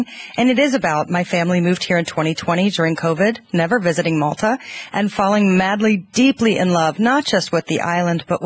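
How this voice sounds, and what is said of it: American accent. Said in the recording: “you're from the States, I'm guessing, from the accent? ... Atlanta, Georgia”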